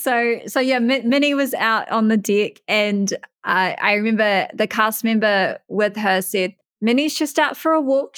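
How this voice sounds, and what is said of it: Distinctive unfamiliar accent. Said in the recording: “my accent isn't terrible ... we love your accent, and I'm sure the listeners are loving your accent as well, because this is not what they get to hear every day”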